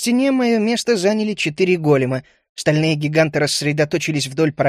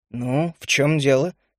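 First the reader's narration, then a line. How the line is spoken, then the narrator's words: Question with a snort. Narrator (Russian): хмыкнув, спросил я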